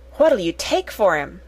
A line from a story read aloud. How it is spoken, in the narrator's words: she said excitedly